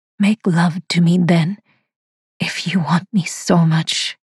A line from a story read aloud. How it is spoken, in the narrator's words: says huskily